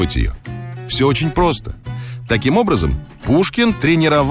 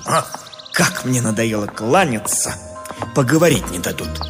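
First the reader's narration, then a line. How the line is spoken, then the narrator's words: Irritated grumble. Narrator (Russian): Вынужденный беспрестанно отвечать на приветствие, поэт раздраженно буркнул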